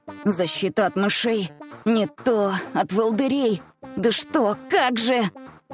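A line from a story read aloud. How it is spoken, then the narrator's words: Muttered under breath. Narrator (Russian): Бормотал он себе под нос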